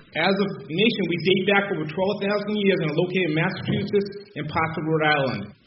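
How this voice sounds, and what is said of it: Boston-area New England accent. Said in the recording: “he grew up on a Wampanoag reservation not too far from Boston. So his accent might sound familiar to fans of Car Talk.”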